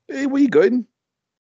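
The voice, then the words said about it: Poor Irish accent, sounds Glaswegian. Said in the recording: “he wasn't trying to copy you, how you talk ... Irish ... Not like that, they didn't ... Don't know what accent that is. As close as a Glaswegian, that was.”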